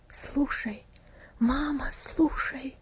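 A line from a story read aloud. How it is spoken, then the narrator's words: Whispered answer. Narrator (Russian): шепотом ответил Винси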